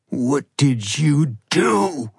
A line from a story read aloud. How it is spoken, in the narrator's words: Ronan snarled